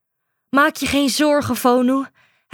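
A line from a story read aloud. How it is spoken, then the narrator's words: Panting. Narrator (Dutch): hijgde Fayana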